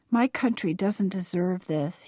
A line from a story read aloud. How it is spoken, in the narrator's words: he said sadly